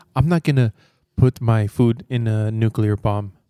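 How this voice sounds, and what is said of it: Poorly done put-on accent. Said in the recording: “I did a horrible accent”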